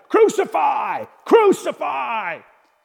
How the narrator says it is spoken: the chief priests and their officials shouted

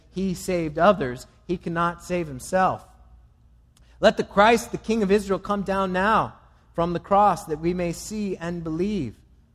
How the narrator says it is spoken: the chief priests with all the scribes mocked him to one another, saying

